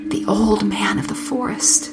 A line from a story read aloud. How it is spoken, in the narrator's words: the woman whispered